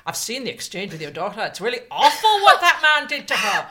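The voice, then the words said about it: Awful impression of a DUP MP. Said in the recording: “that impression ... that awful impression”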